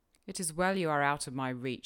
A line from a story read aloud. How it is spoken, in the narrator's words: he exclaimed